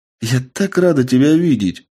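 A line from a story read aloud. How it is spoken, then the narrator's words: Joyful woman. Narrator (Russian): Радостно произнесла амазонка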